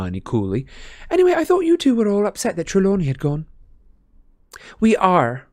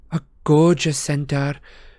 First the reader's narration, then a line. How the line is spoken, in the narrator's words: sighed Parvati